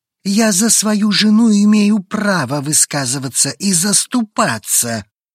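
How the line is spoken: Growl. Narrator (Russian): Рыкнул Эманор

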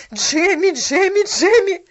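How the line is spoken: Shouted. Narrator (Russian): закричала она

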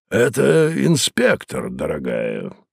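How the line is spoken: Creaky voice. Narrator (Russian): проскрипел Мозес

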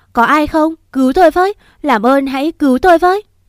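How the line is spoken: Loud anguished scream. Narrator (Vietnamese): ôm bụng hét toáng lên

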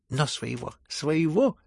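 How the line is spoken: Babbling. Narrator (Russian): лепетал он

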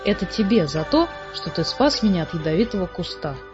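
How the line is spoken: Timid. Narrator (Russian): робко сказала

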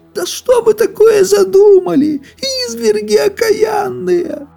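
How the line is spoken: Old woman shouting, dreading shame. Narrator (Russian): Закричала старуха, чуя, каким позором сейчас все обернется

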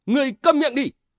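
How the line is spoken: Screamed. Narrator (Vietnamese): Tử Văn cũng thét lên

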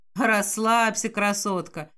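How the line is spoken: Tossed off after laughing. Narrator (Russian): отсмеявшись, бросает мне Реджи

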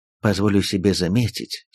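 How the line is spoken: Calm. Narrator (Russian): спокойно проговорил господин Грюнлих

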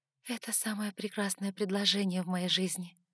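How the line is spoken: Breathless exhale. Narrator (Russian): выдохнула я

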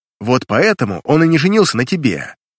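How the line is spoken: Angry retort. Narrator (Russian): Бросил зло

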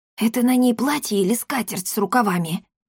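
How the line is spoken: Loud whisper. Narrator (Russian): громким шепотом поинтересовался Акаций

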